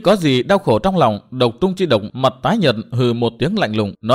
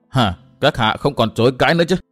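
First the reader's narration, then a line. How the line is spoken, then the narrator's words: Gloating sharp question. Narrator (Vietnamese): đắc ý trước cái đau khổ của Độc Trung Chi Độc hỏi gắt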